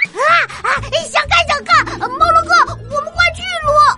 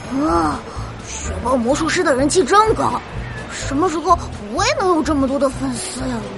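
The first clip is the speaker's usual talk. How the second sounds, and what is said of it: Quiet muttering to oneself. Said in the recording (Chinese): “小声嘀咕”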